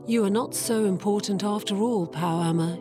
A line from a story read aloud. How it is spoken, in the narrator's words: said